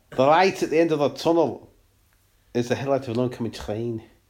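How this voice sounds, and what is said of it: Poor put-on Scouse accent. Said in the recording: “all your accents sound like you're trying to say Taramasalata ... Are you trying to do a Scouse accent? ... you're doing your sort of Glaswegian-y shit ... it's just quick add a kh on the end and it sounds alright”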